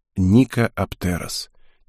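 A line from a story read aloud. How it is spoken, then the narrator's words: Quiet, admiring. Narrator (Russian): тихо сказал Геспер, любуясь девушкой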